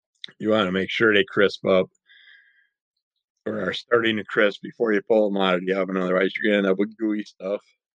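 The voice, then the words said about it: Hoarse, strained voice. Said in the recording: “My throat is just clamming up, getting all hoarse here all of a sudden.”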